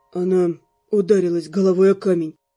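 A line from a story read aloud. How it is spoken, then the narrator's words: Muffled explanation. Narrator (Russian): глухо объяснил он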